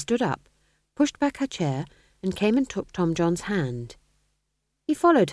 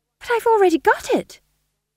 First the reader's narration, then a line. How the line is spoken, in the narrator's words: said Tom John desperately